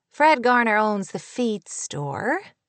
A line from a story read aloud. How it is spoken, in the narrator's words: Kate said in a puzzled voice